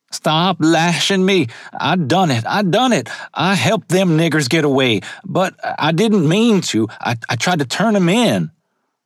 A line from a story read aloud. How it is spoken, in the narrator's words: Loopy Dixon, screaming in pain, cries